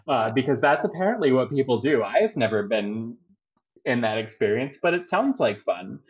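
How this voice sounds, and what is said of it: Baltimore accent. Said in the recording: “my Baltimore accent ... when I sing the vowel "O," I always sing it with an "O." ... Which is not a British accent of any kind. It's really just how we talk around here.”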